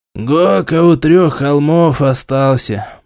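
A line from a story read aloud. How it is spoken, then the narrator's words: Gloomy reply. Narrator (Russian): мрачно ответил Тит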